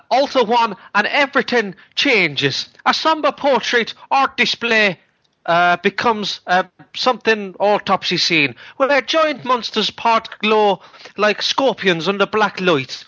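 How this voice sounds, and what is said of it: Put-on exaggerated Irish accent. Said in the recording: “I think you should do a bongo Irish accent.”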